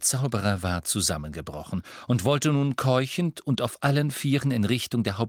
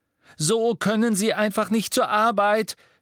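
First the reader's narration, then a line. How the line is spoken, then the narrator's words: Screaming. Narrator (German): schrie Hermine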